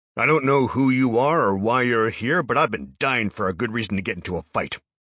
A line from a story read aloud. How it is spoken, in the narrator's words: Harold bellowed